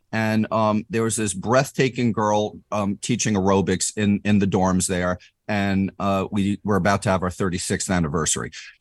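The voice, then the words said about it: New York accent. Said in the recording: “I'm from New York originally, if my attitude or my accent didn't already spoil that”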